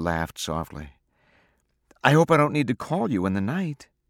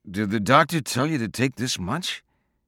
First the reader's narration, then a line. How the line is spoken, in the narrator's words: He asked thickly